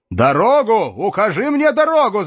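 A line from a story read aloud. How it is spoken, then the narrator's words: Yelled by knight. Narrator (Russian): заорал рыцарь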